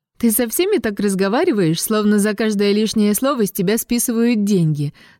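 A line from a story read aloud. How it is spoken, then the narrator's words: Laughing. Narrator (Russian): засмеялась она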